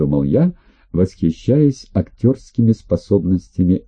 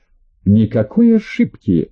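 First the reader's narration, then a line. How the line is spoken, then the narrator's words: Sharp interruption. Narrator (Russian): резко оборвала его Анжела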